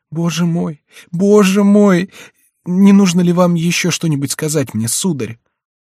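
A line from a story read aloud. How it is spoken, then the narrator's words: Choking with sobs. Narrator (Russian): задыхаясь от слез и рыданий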